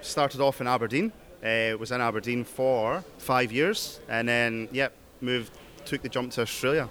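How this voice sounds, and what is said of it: UK accent. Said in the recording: “So you started off in the UK? ... Can hear the accent.”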